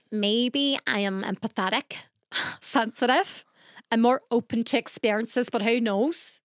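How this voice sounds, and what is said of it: Put-on Northern Irish accent. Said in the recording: “the accent's changing ... a very good Irish accent ... Northern Irish, isn't it?”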